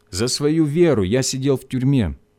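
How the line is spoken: Plain. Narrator (Russian): сказал Иванов

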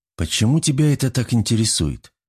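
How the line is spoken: Calm question. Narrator (Russian): спокойно задал вопрос я

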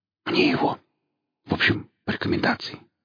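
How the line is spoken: Whispering. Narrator (Russian): зашептал шеф

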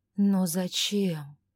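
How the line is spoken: Gentle reproach. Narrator (Russian): мягко укорил невесту Ивар

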